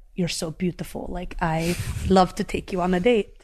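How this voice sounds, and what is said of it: Put-on Russian accent. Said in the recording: “the accent you're trying to do is Russian”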